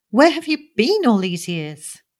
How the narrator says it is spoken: she cried

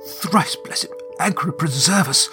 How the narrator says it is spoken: he splutters, his face ashen

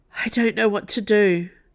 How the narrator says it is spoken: Dana gasped

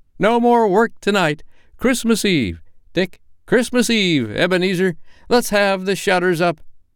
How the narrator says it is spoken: cried old Fezziwig with a sharp clap of his hands

